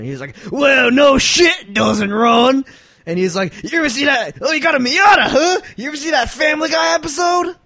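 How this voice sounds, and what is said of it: Gruff crusty old biker voice. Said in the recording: “Accent that you're working in here ... He did sound like, you know, a crusty old Harley riding kind of dude.”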